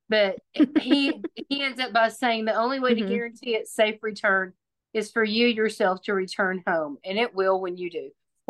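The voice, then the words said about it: Texas accent. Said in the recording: “I would still sound exactly like this ... This is my Texas accent”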